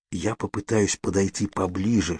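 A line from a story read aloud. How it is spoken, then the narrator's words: Whisper. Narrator (Russian): шепнул я Кейт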